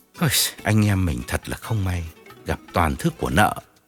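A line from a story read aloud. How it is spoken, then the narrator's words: Sighing, consoling. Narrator (Vietnamese): Điển thở dài an ủi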